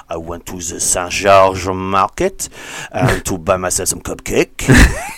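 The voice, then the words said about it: Put-on French accent. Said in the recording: “I have to do to get into French accent.”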